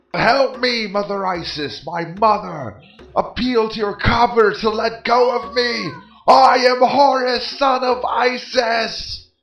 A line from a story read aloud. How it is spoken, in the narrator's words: Isis then let out a loud shriek and made utterance to her copper